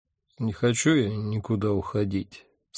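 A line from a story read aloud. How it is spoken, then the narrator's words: Sleepy mumble. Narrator (Russian): сонно пробормотал я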